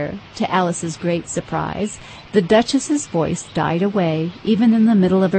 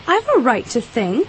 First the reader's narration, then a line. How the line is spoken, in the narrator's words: said Alice sharply, for she was beginning to feel a little worried